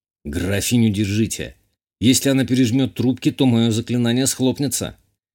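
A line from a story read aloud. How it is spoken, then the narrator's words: Slightly nervous exclamation. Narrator (Russian): Чуть нервно воскликнул я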